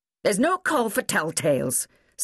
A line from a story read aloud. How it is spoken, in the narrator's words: snapped her mother